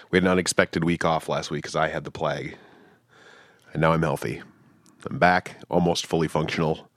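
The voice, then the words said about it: Slightly rough, unwell-sounding voice. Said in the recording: “You still sound a little... My voice is still a little fucked up”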